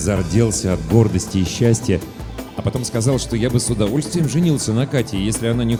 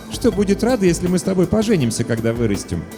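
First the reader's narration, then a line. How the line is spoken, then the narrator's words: Snorting girl. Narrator (Russian): Катя фыркнула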